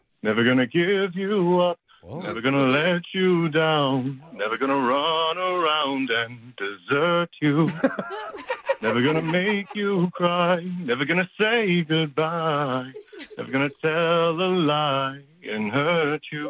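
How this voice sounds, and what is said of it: Singing, imitates another person's voice. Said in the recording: “the Rick Astley impersonation”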